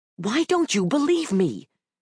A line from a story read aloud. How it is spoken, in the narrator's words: exclaimed the soldier, sounding oddly childlike